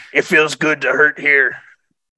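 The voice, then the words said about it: Imitates another person's voice. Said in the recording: “That's my Danny Trejo impression.”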